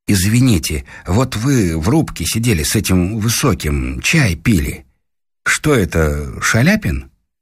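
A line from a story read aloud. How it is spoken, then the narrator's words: Timid question. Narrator (Russian): Муж робко спросил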